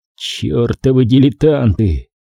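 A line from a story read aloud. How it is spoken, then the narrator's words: Soundless exhale. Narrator (Russian): беззвучно выдохнул маг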